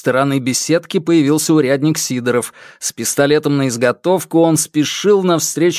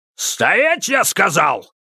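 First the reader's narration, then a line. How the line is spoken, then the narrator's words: Barked command. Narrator (Russian): снова рявкнул Сидоров, припуская в погоню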